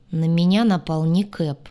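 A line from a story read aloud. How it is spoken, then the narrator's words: Grim. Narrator (Russian): мрачно произнес Двар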